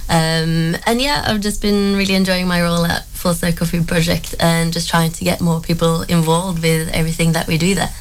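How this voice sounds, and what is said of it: Norwegian accent. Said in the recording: “I'm from Norway originally, so if I think I have a funny accent,”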